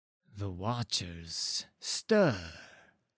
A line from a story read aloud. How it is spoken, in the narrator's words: breathed the priest, perhaps in awe, perhaps in fear